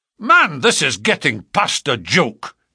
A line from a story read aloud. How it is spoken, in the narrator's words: cried MacDonald, rising angrily